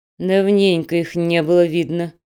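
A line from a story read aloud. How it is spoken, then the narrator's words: Old mother's grumble. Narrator (Russian): проворчала мамаша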